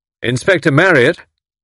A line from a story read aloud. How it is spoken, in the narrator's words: cried Tommy sharply